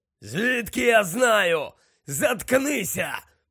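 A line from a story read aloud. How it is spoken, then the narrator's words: Rough growl. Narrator (Ukrainian): прогарчав грубий голос, котрий належав, як зрозумів Гаррі, братові Алекти, Амікусові Керроу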